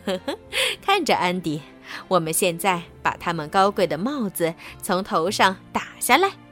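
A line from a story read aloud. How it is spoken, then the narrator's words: Giggling. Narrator (Chinese): 外婆咯咯的笑着说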